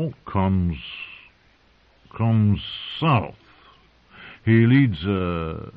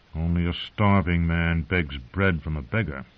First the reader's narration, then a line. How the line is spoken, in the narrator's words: he muttered